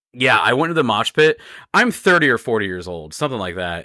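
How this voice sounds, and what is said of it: Hoarse, low-energy voice. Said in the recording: “I'm a little low energy. ... My voice is a little gone because I was singing”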